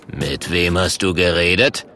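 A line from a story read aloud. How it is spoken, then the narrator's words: Stern question. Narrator (German): fragt der Murk streng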